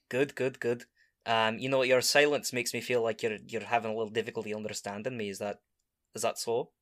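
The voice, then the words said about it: Thick put-on accent, fast speech. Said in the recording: “Your accent's too thick. You talk too quickly.”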